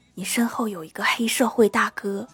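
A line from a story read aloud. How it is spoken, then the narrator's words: Whispering. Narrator (Chinese): 老妈小声对我说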